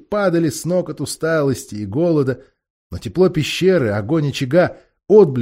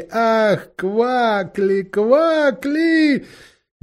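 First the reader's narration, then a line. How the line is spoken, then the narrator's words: Loud laughing voices. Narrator (Russian): А все громко смеялись и говорили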